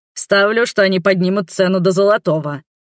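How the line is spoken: Excited deep orc voice. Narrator (Russian): азартно басил орк

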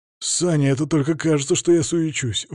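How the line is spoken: Breathy exhale. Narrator (Russian): выдохнул Миша

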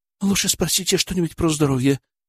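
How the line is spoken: Whisper. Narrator (Russian): прошептала Живкова, обращаясь к Леониду Ильичу

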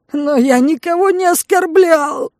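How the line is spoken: Man's wild howl. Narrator (Russian): взвыл дурным голосом мужик

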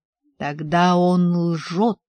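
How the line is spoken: Growl. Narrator (Russian): прорычал шкипер

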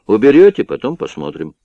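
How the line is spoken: Calm reply. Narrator (Russian): спокойно ответил Бестаев

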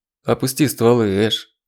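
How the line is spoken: Dead, flat voice. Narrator (Russian): мертвым голосом произнес Ронин

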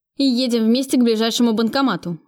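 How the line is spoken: Shouting. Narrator (Russian): закричал он

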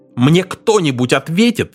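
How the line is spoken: Shouted. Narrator (Russian): закричал Пакстон

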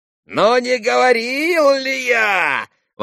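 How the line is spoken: Shouted enthusiastically. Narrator (Russian): восторженно крикнул Федор Павлович

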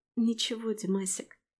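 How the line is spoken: Tearful mumble. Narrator (Russian): бормочу, украдкой смаргивая слезы

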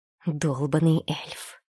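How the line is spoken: Cursing through gritted teeth. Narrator (Russian): сквозь зубы ругнулась

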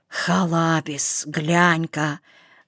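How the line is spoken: Strangled whisper. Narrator (Russian): сдавленным голосом прошептал он

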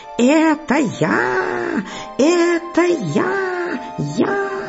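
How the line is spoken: Frog shouting at full strength. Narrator (Russian): лягушка уж не выдержала и, забыв всякую осторожность, закричала изо всей мочи

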